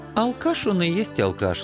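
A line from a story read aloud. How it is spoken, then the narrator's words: Affectionate, smiling. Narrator (Russian): ласково улыбнулся Анцифер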